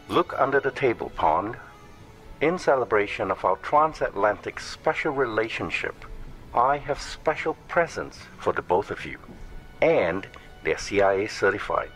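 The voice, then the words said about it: Put-on British accent. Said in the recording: “why do you suddenly have a British accent now?”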